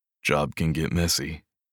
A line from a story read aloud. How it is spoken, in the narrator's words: he said